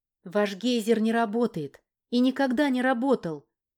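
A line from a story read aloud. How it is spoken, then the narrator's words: Sharp. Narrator (Russian): резко произнесла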